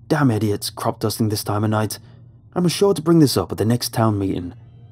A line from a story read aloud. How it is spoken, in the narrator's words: snapped back, clearly frustrated by a sudden awakened state